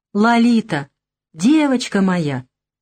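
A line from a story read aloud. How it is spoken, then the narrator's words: Joyful exclamation. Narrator (Russian): радостно воскликнул Гога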